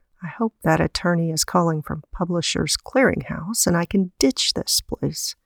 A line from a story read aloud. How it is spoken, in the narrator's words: she muttered to herself